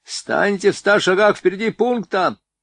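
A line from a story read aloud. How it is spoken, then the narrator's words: Shouting after them. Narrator (Russian): крикнул им вдогонку Чиж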